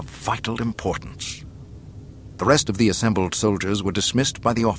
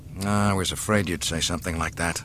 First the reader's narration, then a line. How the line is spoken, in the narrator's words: muttered Solo